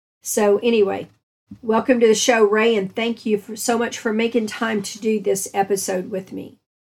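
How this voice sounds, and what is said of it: Unwell, strained-sounding voice. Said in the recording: “apologize for my voice. I'm actually in bed with some kind of respiratory nonsense.”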